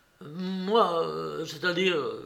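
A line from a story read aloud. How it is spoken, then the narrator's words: Stammered. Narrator (French): bégaya Alyosha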